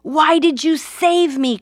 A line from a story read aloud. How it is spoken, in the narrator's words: cried the angry 76-year-old man